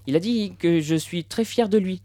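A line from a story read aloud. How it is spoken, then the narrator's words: Plain. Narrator (French): a dit maman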